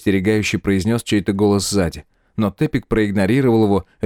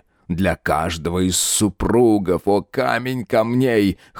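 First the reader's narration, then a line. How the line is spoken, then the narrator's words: Hoarse moan. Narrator (Russian): хрипло простонал он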